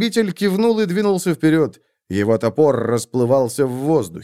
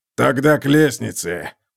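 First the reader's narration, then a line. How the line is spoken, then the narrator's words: Hoarse. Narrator (Russian): прохрипел он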